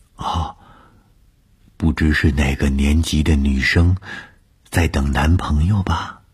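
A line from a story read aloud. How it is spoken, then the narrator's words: Low whisper. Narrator (Chinese): 高玉凑在我的耳边低声地说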